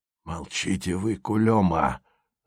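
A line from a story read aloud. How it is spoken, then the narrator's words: Hissed into an ear. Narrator (Russian): зашипел Морозов в ухо Красина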